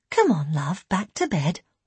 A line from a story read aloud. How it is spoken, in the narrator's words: Elaine said gently